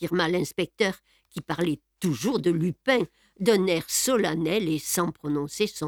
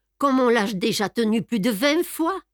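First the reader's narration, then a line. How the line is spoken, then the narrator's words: Laughing. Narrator (French): dit Botrelé en riant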